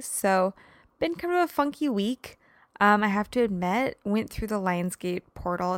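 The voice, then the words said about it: Tired-sounding voice. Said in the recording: “You can probably tell in my voice, I'm a little bit tired. ... I think I'm more emotionally and mentally tired.”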